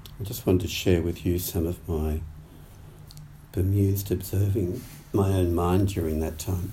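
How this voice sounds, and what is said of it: Hoarse, sore-throated voice. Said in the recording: “I've got a bit of a sore throat”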